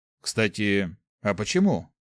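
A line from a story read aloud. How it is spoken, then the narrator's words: Thoughtful question. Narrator (Russian): задумчиво спросил Гюш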